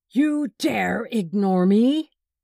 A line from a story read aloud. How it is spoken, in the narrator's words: roared